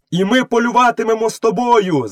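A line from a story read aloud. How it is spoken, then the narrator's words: Wolves shouting together. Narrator (Ukrainian): закричали 4 вовків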